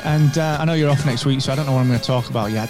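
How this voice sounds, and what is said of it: Yorkshire accent. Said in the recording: “Yorkshire accent”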